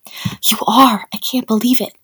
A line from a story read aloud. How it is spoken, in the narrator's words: he whispered